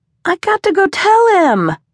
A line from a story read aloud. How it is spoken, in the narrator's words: Miles whined again